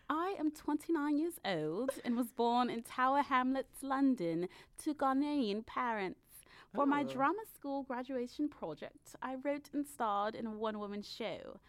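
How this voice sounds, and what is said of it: Put-on posh London English accent. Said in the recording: “I'm so tempted to do this in an accent. ... Sorry, London. ... She doesn't sound like this. ... I sound like the Dowager Countess.”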